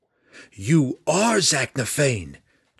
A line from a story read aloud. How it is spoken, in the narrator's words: Drizzt cried